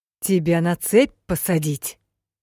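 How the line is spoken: Furious growl. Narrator (Russian): разъяренным голосом прорычал ментор

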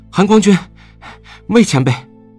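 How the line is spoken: Breathless. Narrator (Chinese): 蓝思追气喘吁吁地跑上来道

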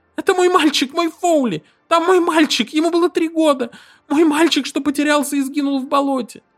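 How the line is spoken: Convulsive sobbing. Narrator (Russian): Она начинала судорожно рыдать

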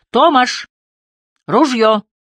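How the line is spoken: Group shouting after someone. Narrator (Russian): кричали вслед

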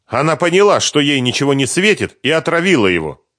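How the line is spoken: Angry. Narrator (Russian): зло предположила Ирина

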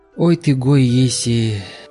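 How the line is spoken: Flat, dull voice. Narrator (Russian): сказал он блеклым голосом

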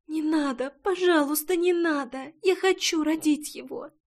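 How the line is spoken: Quiet whimpering. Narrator (Russian): Тихо захныкала Рейна

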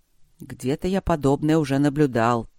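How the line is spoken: Grumbling dragon. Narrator (Russian): проворчал дракон

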